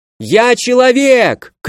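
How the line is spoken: Warning shout. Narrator (Russian): крикнул, предупреждая защитников

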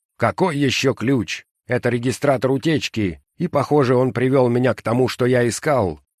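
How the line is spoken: Stern reply. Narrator (Russian): строго ответил человек

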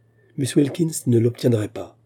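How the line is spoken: Plain. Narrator (French): dit-il

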